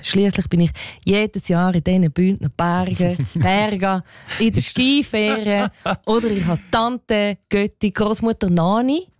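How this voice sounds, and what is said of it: Attempted put-on Bündner dialect. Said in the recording (German): “Ist das dein Versuch, Bündner Dialekt nachzumachen? Also man müsste ein bisschen mehr können in diesem Spiel als naheffen”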